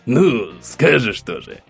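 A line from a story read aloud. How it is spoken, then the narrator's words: Chuckling man. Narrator (Russian): хохотнул мужчина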